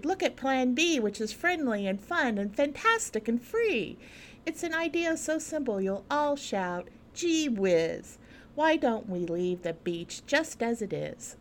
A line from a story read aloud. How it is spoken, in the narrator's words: The kids in a chorus cried